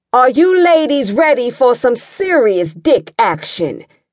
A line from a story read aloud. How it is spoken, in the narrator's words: the announcer yelled out